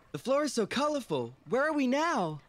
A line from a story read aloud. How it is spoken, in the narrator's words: Michael exclaimed with excitement